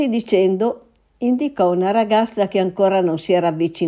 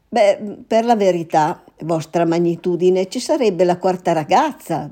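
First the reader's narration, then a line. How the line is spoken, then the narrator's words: Stammering. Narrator (Italian): balbettò il poveretto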